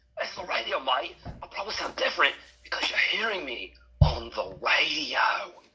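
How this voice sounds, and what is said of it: Overly exaggerated put-on accent. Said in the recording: “your accent, it sounds a bit, I don't know, overly exaggerated”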